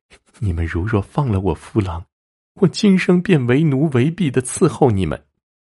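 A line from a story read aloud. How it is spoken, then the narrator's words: Weeping. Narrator (Chinese): 女子哭泣着说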